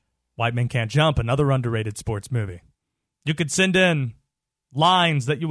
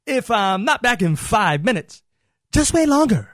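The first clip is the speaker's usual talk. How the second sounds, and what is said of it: Overacted Jim Carrey impression. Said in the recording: “Needed some overacting in his voice there ... I'm Jim Carrey ... The overactor of the century ... Are you trying to do a Jim Carrey impression? ... That's right.”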